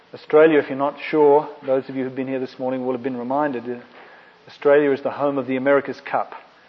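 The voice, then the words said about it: Australian accent. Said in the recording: “my slightly different Australian accent”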